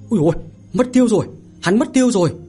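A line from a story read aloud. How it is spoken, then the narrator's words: Panicked shout. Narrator (Vietnamese): Có người hoảng loạn la lên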